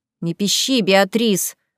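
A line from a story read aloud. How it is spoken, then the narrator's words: Grumbling woman. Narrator (Russian): проворчала третья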